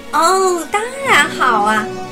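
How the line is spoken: Smiling reply. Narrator (Chinese): 贝琳达笑着回答

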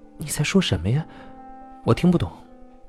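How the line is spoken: Soft, shy. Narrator (Chinese): 小倩的耳朵有点发红了，轻声地说道

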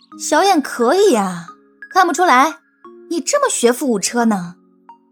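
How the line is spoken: Admiring. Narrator (Chinese): 云溪赞叹的说道

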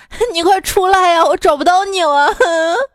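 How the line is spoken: Tearful man shouting by phone. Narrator (Chinese): 手机里一男的带着哭腔跟我喊

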